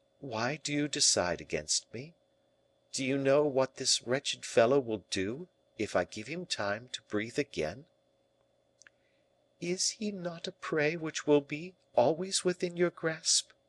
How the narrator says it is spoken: he said gently

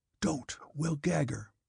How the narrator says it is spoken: Daniel whispered

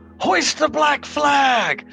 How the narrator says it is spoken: Sigrun yells out

